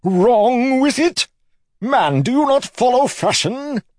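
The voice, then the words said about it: Indignant posh noble accent. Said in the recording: “stuffing his accent so full of noble indignation it was practically bleeding”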